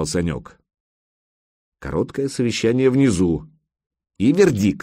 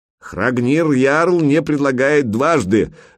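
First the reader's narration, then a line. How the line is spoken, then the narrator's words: Shouting. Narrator (Russian): закричал переводчик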